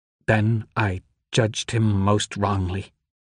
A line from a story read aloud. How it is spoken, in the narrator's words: said, her voice trembling